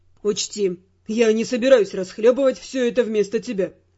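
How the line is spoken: Stern warning. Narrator (Russian): строго предупредил он

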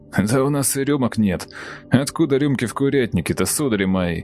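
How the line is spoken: Laughing while speaking. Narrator (Russian): Сквозь смех сказала курица

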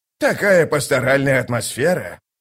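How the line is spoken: Sighing. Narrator (Russian): вздохнул он

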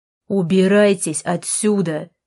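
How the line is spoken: Bark. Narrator (Russian): рявкнул он снова

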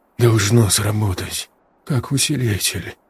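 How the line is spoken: Muttering. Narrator (Russian): бормотал он

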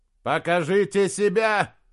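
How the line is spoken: Echoing shout. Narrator (Russian): закричал он, и громкое эхо отразилось от ледяных стен

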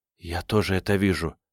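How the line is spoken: Whispered. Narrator (Russian): прошептала она

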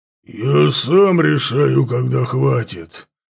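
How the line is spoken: Creature's growl. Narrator (Russian): прорычал ворк

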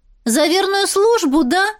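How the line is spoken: Loud shout for all. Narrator (Russian): крикнула так, чтобы слышали все

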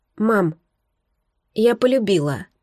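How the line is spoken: Soft whisper. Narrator (Russian): прошептала она тихо

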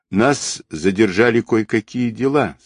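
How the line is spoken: Calm reply. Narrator (Russian): спокойно ответил кореец

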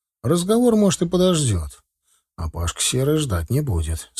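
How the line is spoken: Even tone. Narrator (Russian): сказал я ровным тоном

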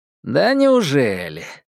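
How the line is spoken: Mocking exclamation. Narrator (Russian): насмешливо воскликнул Ньют

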